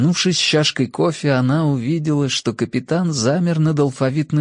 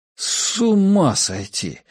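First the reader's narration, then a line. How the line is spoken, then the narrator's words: Drawled. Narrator (Russian): протянул он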